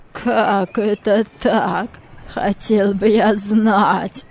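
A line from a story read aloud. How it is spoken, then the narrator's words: Uncertain laughter. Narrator (Russian): Мартина рассмеялся, но в голосе его чувствовалась неуверенность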